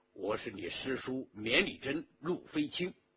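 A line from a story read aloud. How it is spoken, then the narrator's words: Low voice. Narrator (Chinese): 陆飞卿低声说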